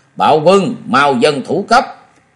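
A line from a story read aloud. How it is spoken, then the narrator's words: Angry shouting. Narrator (Vietnamese): Ông ta quát tháo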